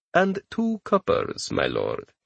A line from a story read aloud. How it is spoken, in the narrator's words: Abbas corrected smoothly